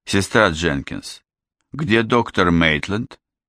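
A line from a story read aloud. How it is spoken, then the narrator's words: Muffled hoarse cough. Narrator (Russian): Прикрыв рот ладонью и прокашлявшись, она хрипло выдавила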